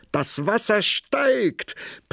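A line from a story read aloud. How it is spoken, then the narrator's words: Princess calling out. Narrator (German): die Prinzessin rief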